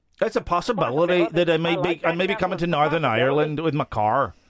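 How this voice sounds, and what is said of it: Put-on Northern Irish accent. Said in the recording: “Let me do my Irish accent ... That's a Northern Irish accent ... if you're doing Northern Irish, you got to say things like possibility ... Northern Irish accent, is it not?”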